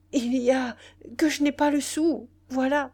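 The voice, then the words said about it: Desperate, pleading tone. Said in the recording (French): “avec un accent désespéré”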